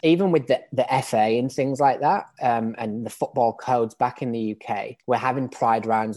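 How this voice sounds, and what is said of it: British English accent. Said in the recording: “as you can probably tell from my accent, I'm British. I grew up in England.”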